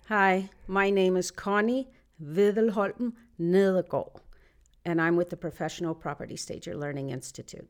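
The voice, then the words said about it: Speaks with a foreign accent. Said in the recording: “She says it so beautiful with such an accent”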